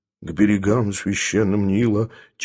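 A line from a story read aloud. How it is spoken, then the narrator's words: Quiet singing. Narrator (Russian): тихонько напевало божество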